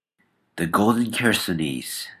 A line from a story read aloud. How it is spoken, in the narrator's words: said George softly